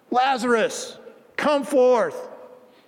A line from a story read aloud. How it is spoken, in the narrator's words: Jesus begins to shout